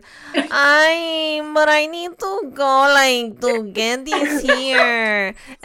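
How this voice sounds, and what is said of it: Imitates another person's voice. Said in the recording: “That's a good impersonation.”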